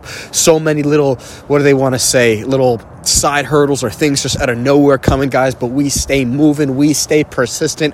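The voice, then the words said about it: Slightly funny, congested cold voice. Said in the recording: “my voice sounds a little bit funny ... I came down with a little bit of a cold”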